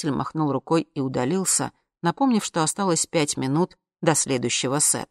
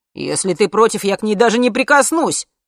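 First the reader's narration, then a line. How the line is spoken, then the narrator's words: Yelling. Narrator (Russian): заорал С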